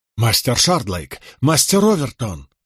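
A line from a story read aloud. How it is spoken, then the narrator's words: Worried exclamation. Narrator (Russian): воскликнул Болейн, озабоченно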